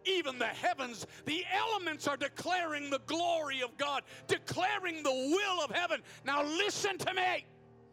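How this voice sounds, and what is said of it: Shouting. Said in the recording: “Oh my God, I'm shouting.”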